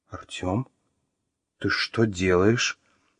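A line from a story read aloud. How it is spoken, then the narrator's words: Shocked whisper. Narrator (Russian): потрясенно прошептала Маша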